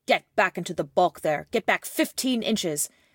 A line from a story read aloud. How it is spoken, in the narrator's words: one said quite fiercely